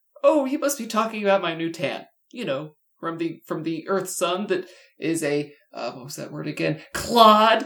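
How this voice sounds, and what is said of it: Lousy cartoon character voice. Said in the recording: “Your Peridot impression is lousy, too!”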